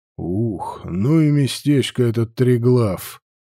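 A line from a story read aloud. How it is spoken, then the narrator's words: Grumbling mutter. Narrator (Russian): буркнул Вальтер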